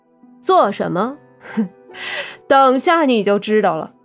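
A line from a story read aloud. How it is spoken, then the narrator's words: Smirking. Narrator (Chinese): 苗阿飘的嘴角浮起了一股笑意，道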